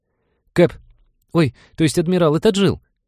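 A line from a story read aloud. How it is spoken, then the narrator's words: Squeaky speaker. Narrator (Russian): пискнул динамик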